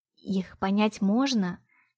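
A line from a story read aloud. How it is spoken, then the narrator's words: Barely audible, lips only. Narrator (Russian): Чуть слышно, почти одними губами произнесла та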